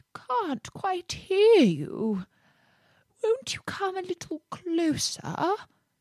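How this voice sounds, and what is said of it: Feeble fox character voice. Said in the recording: “said the fox in a feeble voice”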